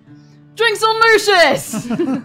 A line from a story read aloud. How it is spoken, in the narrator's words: Moore will just very loudly, as she does, just be like